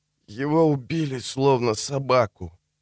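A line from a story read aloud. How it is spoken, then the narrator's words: Groaning. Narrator (Russian): простонал он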